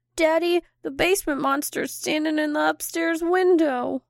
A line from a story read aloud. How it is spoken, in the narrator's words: Matthew shakily say